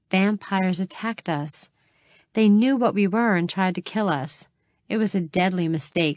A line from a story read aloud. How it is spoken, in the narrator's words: she chuckled